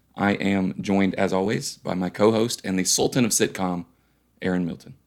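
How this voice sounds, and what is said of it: Hoarse, strained voice. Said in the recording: “the time of year where I lose my voice.”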